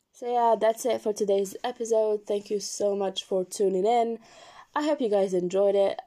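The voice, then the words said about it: Sick, strained voice. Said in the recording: “apologize for my voice. I am kind of sick”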